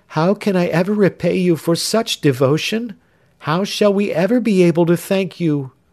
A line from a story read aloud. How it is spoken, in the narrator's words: cried the young girl